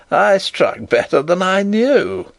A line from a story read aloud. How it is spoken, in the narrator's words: And he laughed triumphantly